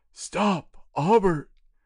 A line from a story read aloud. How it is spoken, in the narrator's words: cried Master Zacharias